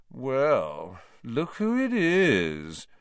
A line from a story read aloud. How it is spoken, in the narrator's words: said Malfoy in his usual lazy drawl